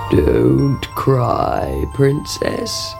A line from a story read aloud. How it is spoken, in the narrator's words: croaked a voice